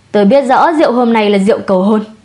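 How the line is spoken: Sighing. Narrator (Vietnamese): Triệu Văn Xuân thở dài, nói

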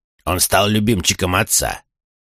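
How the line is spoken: Growled. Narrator (Russian): прорычал Чейд

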